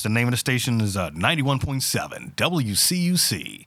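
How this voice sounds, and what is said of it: Radio announcer voice. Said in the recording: “radio voice”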